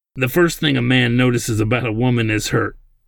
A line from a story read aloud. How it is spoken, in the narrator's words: Simic continued with a slight laugh in his voice